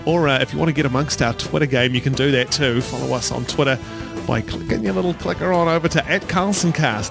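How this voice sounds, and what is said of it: Non-American accent. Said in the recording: “you're so lucky you have that accent, because if you were in America ... The accent, ... It doesn't save it.”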